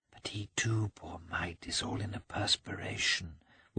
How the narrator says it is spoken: whispered Kitty

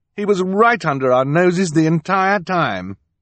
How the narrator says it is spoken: Count Olaf turned to sneer at the children

